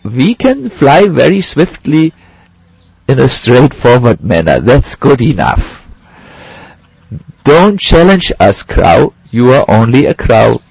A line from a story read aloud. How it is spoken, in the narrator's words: The swans laughed and said